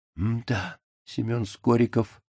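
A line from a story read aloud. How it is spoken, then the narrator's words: Whispered. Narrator (Russian): шепнул господин Неймлис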